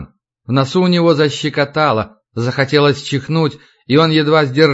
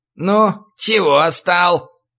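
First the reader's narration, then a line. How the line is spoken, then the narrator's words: Nasal voice. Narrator (Russian): произнес гнусавый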